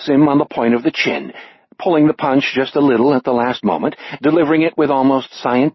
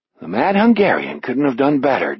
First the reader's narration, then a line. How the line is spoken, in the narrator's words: Jack murmurs